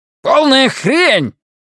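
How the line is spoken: Furious bark. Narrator (Russian): яростно рявкнул Биллингс

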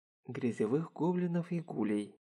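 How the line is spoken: Gentle correction. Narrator (Russian): мягко поправил Харухира

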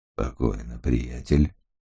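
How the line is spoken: Quiet. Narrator (Russian): негромко произнес светловолосый

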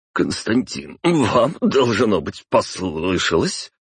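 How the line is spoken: Flustered, hysterical chuckle. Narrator (Russian): растерялся Виноградов, истерично хохотнув

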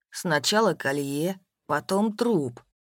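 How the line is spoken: Calm. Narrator (Russian): спокойно произнес Степан

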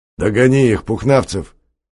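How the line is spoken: Shout. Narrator (Russian): крикнул Чухонцев

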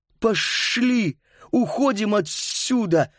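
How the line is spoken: Hissed. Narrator (Russian): прошипел Паскаль

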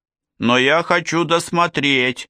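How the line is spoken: Boy shouting back. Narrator (Russian): прокричал в ответ сын

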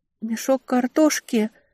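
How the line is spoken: Weak questioning voice. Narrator (Russian): переспросила слабым голосом

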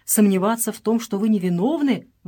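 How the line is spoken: Exclaiming doctor. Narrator (Russian): воскликнул доктор

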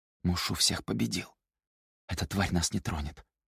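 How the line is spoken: Whisper. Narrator (Russian): прошептал Циян

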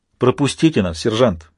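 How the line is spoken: Angry command, marine. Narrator (Russian): сердито приказал морской пехотинец

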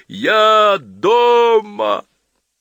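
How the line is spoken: Sobbing yell. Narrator (Russian): рыдая от тоски и счастья, заорал

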